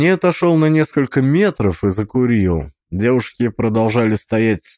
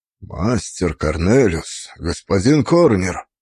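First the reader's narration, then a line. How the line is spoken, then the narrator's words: Hoarse voice. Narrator (Russian): его голос был хриплым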